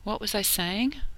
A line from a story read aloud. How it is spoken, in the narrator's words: Rodney asked a long time later, as they rested against the wall, panting